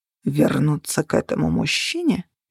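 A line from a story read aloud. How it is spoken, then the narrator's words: Words through gritted teeth. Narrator (Russian): процедил он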